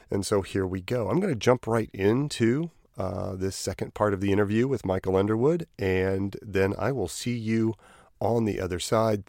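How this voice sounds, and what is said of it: Voice affected by a cold. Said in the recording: “Apologize for my voice. I am going through a bit of a cold”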